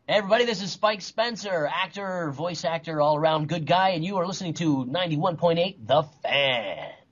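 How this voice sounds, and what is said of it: Polished radio announcer voice. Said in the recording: “That was a great radio voice.”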